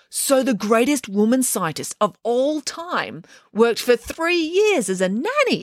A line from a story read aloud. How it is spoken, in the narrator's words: exclaimed Derek